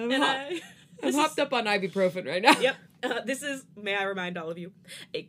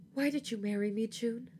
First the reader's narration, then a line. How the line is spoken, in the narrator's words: I whisper